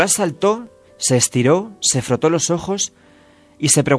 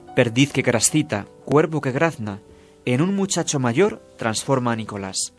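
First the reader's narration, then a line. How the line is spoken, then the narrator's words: Witch's quiet voice. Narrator (Spanish): Entonces la bruja, en voz baja, dijo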